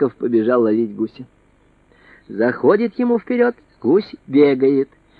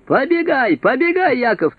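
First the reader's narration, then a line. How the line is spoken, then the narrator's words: Shouting. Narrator (Russian): а брат кричал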